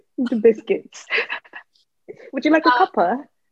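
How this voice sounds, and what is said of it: Weak put-on British accent. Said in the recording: “That was bad. ... I used to have a British accent”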